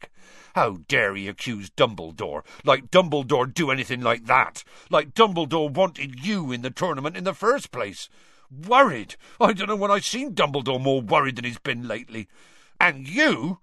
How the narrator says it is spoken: Hagrid suddenly said angrily

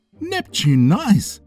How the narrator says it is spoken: Curtis exclaimed

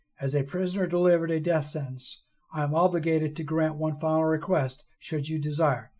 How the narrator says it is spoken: she said calmly, as if she had repeated those words 1,000 times before

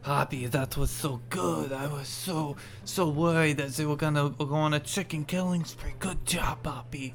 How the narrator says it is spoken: he whispers into your ear

